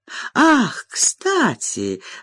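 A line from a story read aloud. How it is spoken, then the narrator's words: Exclaimed. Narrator (Russian): воскликнула миссис Спарсит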